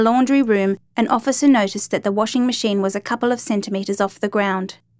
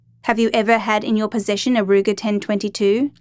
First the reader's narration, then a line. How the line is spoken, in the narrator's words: Leach asked